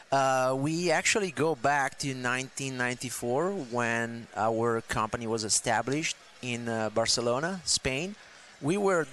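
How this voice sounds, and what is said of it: Spanish-accented English. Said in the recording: “Is that why you got an accent? ... The accent is not going to go anywhere.”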